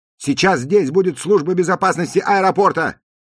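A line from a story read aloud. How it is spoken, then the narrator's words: Shouting. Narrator (Russian): крикнул грузчиком Джуди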